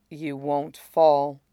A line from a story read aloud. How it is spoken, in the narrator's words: he says quietly